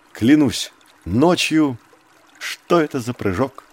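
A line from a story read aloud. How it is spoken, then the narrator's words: Calm remark. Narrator (Russian): спокойно заметил Маугли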